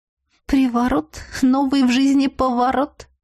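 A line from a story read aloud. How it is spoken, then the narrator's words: Giggle. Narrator (Russian): хихикнула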